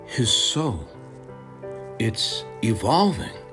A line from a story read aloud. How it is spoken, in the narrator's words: The demigoddess whispers to herself